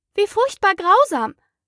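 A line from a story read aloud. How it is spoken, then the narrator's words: Exclaiming. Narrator (German): rief Alice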